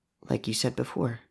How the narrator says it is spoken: Kira murmured

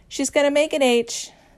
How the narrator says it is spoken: Louis shouts back

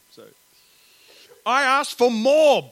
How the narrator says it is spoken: bellowed Pig in dismay

